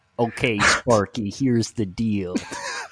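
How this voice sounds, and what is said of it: Jack Nicholson impression. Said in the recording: “it's also how I learned my Jack Nicholson ... doing a Jack Nicholson impression is to do an impression of Robin Williams doing a Jack Nicholson impression”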